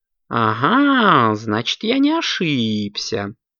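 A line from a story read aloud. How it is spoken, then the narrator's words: Cat purring contentedly. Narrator (Russian): довольно промурлыкал кот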